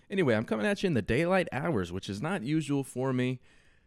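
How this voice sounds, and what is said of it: Slightly stuffed-up, congested voice. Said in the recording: “I sound a little stuffed up.”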